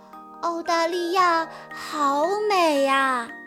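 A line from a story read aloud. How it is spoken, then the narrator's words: Inner admiring thought. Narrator (Chinese): 乐迪不由得在心里赞叹道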